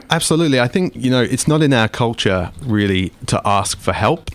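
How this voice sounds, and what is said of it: English accent. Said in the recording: “I come from England, as you can probably hear from my accent”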